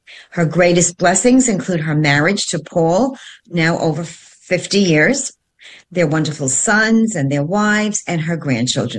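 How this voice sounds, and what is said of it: Italian New York accent. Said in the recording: “we kind of share the same Italian New York ... Accent. ... she loves hearing the accent”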